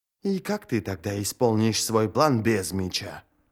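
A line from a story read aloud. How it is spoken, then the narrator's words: Muttered. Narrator (Russian): пробормотала Сумаэль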